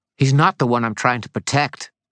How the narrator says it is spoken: he snapped back

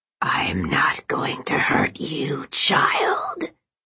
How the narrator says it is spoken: came the hideous, rasping voice again, as if the man wasn't of his own mind, but possessed by a demented, ravenous demon

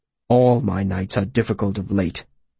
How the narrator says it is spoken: he said bitterly

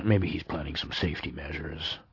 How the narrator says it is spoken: murmured Snout

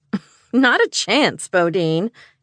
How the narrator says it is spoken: Callie laughed

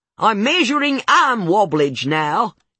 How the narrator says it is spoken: she yells at herself

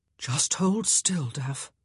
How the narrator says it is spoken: Simon crooned, his voice soft and soothing

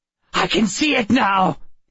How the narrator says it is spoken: said excitedly

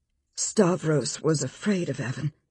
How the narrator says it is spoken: Elle said in a low tone

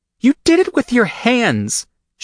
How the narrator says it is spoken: she cries, turning to me and yelling

